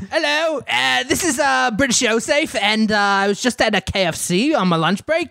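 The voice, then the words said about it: Put-on British accent, sounds Australian. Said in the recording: “British ... angry, but British ... It might sound a little Australian or New Zealand ... Australian.”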